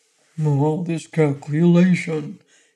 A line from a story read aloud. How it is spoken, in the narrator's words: grumbled the dog sourly